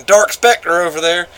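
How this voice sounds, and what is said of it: Mocking hick accent. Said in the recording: “they'd do it in this stupid hick accent ... just mispronouncing the hell out of it”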